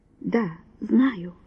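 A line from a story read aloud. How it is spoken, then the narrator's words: Soft reply. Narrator (Russian): мягко ответил он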